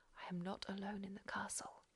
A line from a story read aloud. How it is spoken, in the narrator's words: he whispered